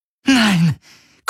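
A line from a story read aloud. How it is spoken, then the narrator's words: Gasping. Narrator (German): keuchte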